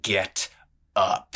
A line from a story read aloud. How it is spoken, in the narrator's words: he snarled